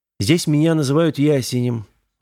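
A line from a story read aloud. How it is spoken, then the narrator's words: Sighing. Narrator (Russian): вздохнул тот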